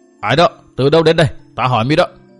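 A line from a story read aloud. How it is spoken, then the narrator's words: Loud call from ahead. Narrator (Vietnamese): phía trước có người cao giọng hỏi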